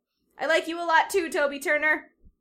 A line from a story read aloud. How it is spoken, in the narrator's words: shout